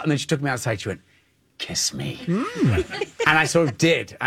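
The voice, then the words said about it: Cute, possibly Scottish accent. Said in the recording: “listen how cute his accent is ... I think he's Scottish”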